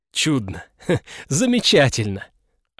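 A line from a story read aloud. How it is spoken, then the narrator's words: Nervous chuckle. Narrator (Russian): Александр нервно хохотнул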